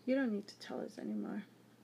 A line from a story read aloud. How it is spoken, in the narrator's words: the raven agreed, his voice a little lower than the blonde's raspy tone